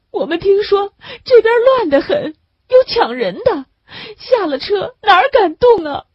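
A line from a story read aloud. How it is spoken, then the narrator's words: Woman sobbing. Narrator (Chinese): 女人呜呜地哭了起来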